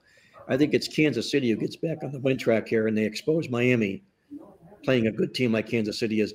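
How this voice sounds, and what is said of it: Hoarse, fading voice. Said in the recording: “I am obviously losing my voice. Not my mind, but I'm losing my voice”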